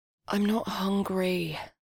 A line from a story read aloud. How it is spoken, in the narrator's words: she sighed